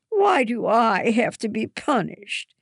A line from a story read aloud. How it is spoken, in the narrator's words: Hannah whines